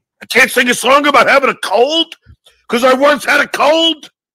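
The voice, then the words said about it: Poor imitation of another person's voice. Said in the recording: “worst Jackie Mason impression”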